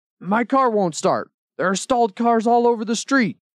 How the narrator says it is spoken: One angry man shouted

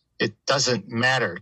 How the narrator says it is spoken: Kay spat

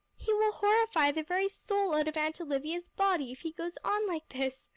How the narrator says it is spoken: I gasped

